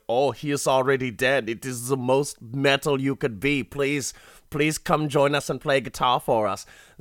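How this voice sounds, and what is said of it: Put-on joke Swedish accent. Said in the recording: “some like Swedish like black metal band ... the joke accent has infected me”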